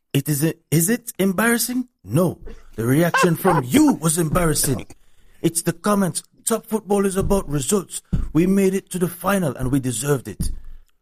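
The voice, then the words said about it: Imitates another person's voice. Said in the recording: “in my Ten Hag voice”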